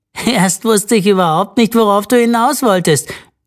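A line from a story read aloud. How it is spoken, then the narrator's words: Laughing call. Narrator (German): rief Simon lachend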